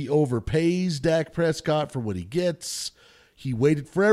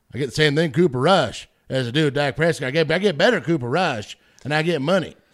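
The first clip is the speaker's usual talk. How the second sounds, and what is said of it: Jerry Jones impression. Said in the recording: “That's my Jerry Jones impression.”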